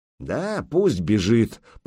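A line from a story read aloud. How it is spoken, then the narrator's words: Grumbling. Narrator (Russian): проворчал кривич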